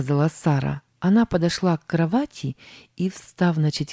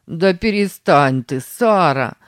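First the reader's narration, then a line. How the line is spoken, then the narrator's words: Laughing. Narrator (Russian): засмеялся Сэм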